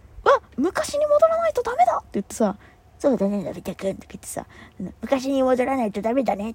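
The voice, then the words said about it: Imitates cartoon character voices. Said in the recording (Japanese): “声真似する必要あったっていうね ... 声真似してたんで”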